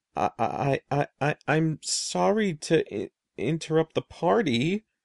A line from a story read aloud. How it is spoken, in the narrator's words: I stammered in a tiny, frightened voice